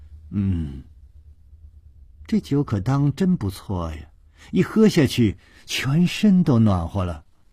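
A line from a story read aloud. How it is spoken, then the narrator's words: Continuous murmuring. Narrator (Chinese): 琵琶公主嘴里还不住地喃喃地说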